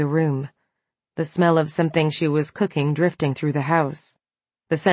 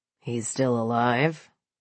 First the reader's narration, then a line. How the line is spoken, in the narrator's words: Cullen asked, his voice low but amused